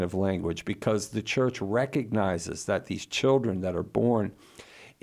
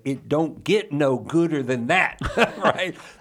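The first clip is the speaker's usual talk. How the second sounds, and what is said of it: Put-on Southern accent. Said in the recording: “to use my Southern accent”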